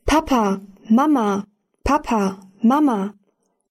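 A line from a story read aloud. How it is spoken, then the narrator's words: Male calling. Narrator (German): Er rief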